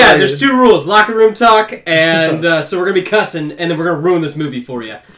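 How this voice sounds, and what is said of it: Usual voice. Nothing is said of it.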